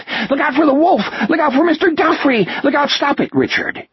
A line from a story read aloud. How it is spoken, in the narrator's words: These breathless screams